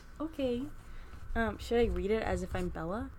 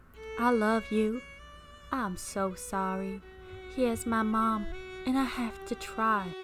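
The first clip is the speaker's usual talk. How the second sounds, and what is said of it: Put-on country accent. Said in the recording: “I have to get a country accent. I'm a country lady.”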